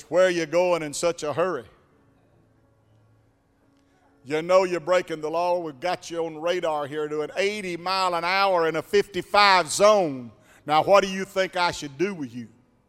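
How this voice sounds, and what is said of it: Deep-voiced police officer voice. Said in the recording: “this guy with a starched clothing walks up with a deep voice and says”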